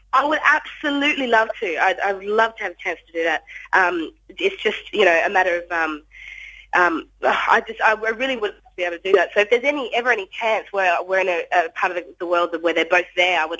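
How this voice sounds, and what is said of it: Australian accent. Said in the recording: “we might be able to tell your accent slightly there from Australia ... Hopefully, I've still got my accent”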